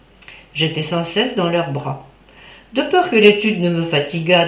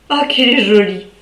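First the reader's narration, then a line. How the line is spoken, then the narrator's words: Father exclaiming. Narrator (French): s'écriait mon père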